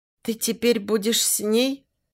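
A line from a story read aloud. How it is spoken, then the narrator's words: Weak, barely audible voice. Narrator (Russian): спрашивает слабым, едва слышным голоском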